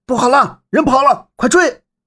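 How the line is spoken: Shouting from behind. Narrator (Chinese): 身后传来叫喊声

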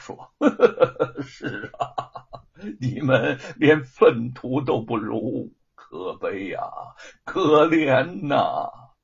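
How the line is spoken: Laughing. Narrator (Chinese): 吴承恩笑道

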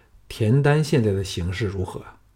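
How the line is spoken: Plain. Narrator (Chinese): 龙阳君说

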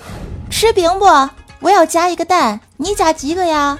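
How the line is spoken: Panting man shouting. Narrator (Chinese): 怪叔叔喘着粗气，对着媳妇儿喊

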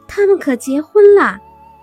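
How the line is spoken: Loud shouting. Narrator (Chinese): 剑大声嚷道

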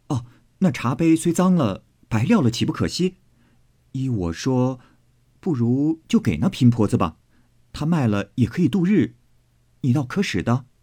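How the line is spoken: Smiling, apologetic. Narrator (Chinese): 宝玉和妙玉笑赔道

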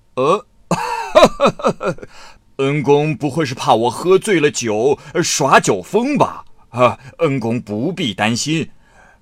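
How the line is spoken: Smiling. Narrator (Chinese): 八大王笑着说

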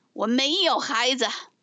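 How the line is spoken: Stern, sharp. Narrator (Chinese): 黄牙厉声说

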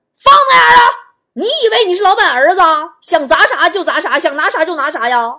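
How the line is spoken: Guards shouting. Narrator (Chinese): 几个保安在拐角处喊

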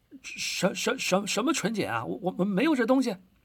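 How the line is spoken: Loud, after hesitation. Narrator (Chinese): 半晌，他才大声说道

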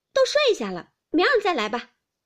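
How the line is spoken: Angry. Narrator (Chinese): 晴雯越发动了气，便说道

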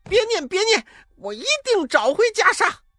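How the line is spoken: Crying out in pain. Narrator (Chinese): 念起紧箍咒，悟空扑的倒在地上，抱着头叫道

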